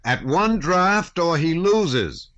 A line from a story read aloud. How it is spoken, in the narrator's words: shouted a fourth